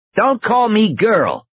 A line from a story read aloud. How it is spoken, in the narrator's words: she shouted back